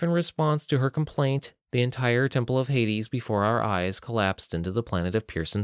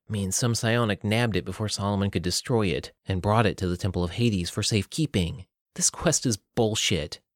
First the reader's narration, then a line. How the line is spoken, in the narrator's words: Harriet scoffed